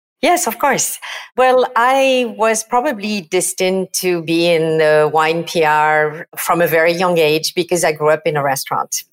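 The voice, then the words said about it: French accent. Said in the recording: “As you can tell from my accent, I am not exactly from New York City. I'm from France and from the south of France, from Provence.”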